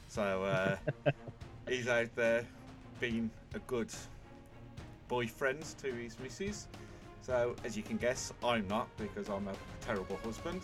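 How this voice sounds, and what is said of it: Brummie accent. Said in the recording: “as you can hear, you've got to listen to my beautiful Brummie accent... It's the worst accent in the country”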